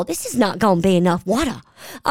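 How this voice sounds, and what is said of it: Sutton imitation, full Southern drawl. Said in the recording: “It was like a full Southern drawl.”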